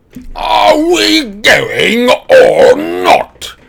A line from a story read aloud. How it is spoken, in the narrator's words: roared Uncle Vernon